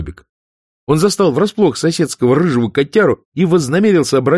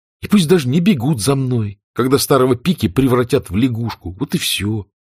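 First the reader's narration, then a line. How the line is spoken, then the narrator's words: Muttering. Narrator (Russian): бормотал Адам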